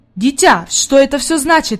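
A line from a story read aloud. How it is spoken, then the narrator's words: Exclaiming. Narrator (Russian): воскликнул господин Сесман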